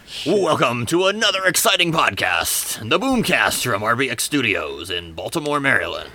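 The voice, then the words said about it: Vince McMahon style announcer voice. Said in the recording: “trying to do a Vince McMahon impression even though you don't know that you are ... He's trying to do shock jockey.”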